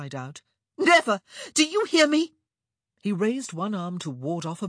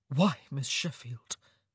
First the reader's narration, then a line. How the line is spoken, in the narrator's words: he said softly